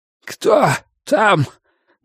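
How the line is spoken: Hoarse croaking voice from inside. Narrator (Russian): донесся изнутри хриплый, каркающий голос

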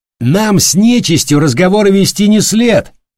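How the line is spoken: Spirited shout. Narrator (Russian): Задорно выкрикнул стоявший справа от старшего малобот

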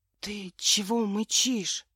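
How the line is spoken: Whispered question. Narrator (Russian): шепотом спросил Боря

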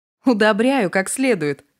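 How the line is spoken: Laughing. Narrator (Russian): рассмеялась Ната

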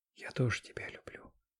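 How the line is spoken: Whispered in ear. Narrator (Russian): Ксюша успевает шепнуть мне на ухо

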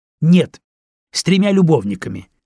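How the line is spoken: Angry reply. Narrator (Russian): сердито ответила

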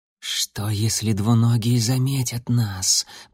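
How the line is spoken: Hiss. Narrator (Russian): прошипел кто-то

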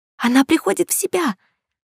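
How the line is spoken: Joyful squeak. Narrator (Russian): радостно пропищала рядом

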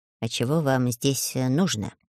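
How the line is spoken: Quiet question. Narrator (Russian): спросил тихонько гном

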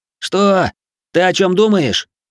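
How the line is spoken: Confused shout. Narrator (Russian): выкрикнул, не понимая, что происходит, ополченец

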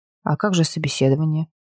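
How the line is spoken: Surprised mutter. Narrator (Russian): С удивлением пробормотала

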